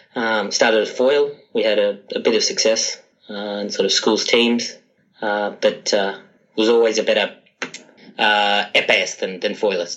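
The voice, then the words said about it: Australian accent. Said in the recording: “as you can probably tell by my accent, I started fencing in Sydney, Australia”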